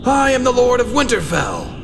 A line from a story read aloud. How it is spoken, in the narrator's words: John screamed